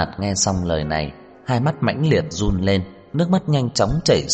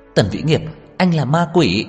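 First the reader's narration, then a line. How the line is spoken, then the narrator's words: Broken anguished cry. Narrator (Vietnamese): Cô sụp đổ, cuối cùng kêu lên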